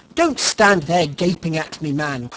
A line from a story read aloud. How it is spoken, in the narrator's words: cried Mr